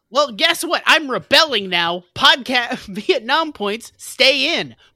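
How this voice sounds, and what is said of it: Raised, shouting voice. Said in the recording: “I'm sorry to raise my voice”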